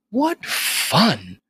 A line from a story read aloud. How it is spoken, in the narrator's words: The old lady exclaimed